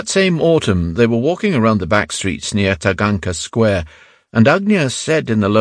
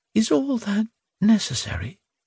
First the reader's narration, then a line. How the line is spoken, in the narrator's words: would ask in a faint voice